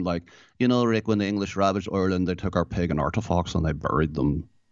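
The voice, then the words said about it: Put-on Northern Irish accent. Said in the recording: “there was a northern one going on there”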